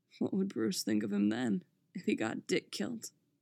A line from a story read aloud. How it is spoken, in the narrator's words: Jason laughed, roughly